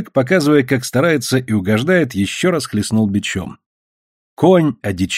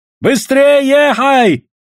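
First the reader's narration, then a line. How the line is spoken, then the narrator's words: Wild shout. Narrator (Russian): дико крикнул Айдамба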